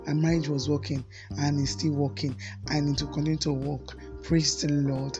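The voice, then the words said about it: Coarse, strained voice. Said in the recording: “Her voice is a little bit coarse ... the voice is a little bit strained”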